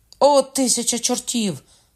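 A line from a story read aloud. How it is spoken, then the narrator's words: Shout. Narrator (Ukrainian): крикнув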